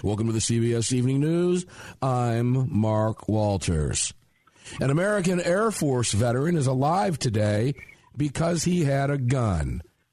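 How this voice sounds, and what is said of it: CBS Evening News anchor impression. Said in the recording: “that was a pretty good impersonation ... You should be on CBS.”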